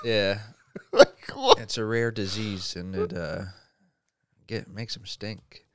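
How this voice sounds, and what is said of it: Put-on Minnesota accent. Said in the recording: “doing it for effect. ... It's more of a Minnesota accent.”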